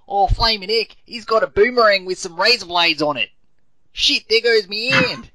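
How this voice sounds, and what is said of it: Attempted Australian accent. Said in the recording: “The worst Australian accent ever ... none of us can do it ... I'm going to try”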